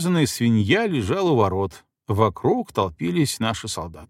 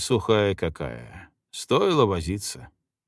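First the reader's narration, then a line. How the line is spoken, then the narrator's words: Drawling. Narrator (Russian): протянул Кучеренко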